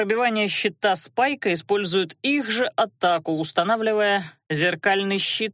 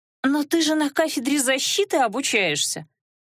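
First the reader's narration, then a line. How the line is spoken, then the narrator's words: Exclaiming woman. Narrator (Russian): воскликнула Розалия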